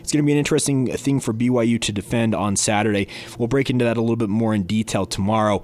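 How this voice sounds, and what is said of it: Voice sounds rough and unwell. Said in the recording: “Hopefully my voice sounds a little bit better by then. Don't want to subject you guys too much to this awful mess”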